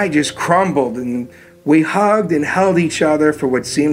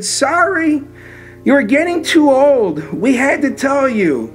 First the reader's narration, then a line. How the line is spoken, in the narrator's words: she just cried and she said